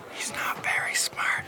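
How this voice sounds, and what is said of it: Whispering. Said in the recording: “What are you whispering for?”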